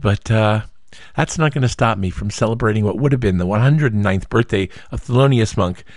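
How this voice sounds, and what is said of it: Rough voice from a cold. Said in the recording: “my voice is a little rough today. I've got a bit of a cold,”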